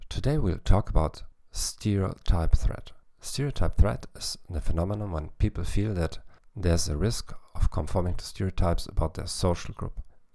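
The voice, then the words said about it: English with German accent. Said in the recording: “the only psychology podcast in the world in English with a German accent.”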